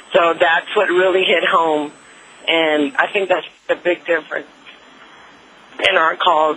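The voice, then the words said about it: Emotional voice. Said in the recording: “I don't know why I'm even getting emotional”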